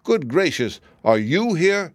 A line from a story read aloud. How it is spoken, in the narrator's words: exclaimed the fox